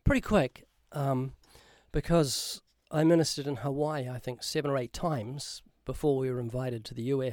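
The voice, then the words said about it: New Zealand accent. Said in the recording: “I'm sure people can hear from your accent. You're from New Zealand.”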